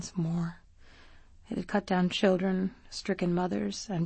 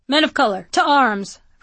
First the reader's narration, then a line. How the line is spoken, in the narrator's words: Frederick Douglass cried